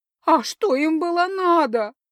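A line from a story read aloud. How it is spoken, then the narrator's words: Sobbing. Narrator (Russian): прорыдала она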